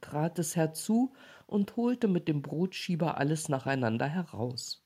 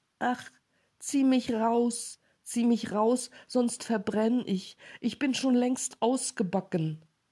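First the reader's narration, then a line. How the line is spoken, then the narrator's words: Calling out. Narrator (German): Das Brot aber rief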